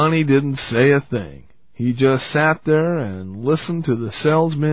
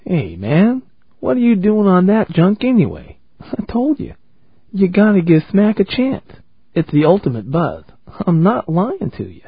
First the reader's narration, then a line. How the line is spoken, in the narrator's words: Lip smiled warmly and said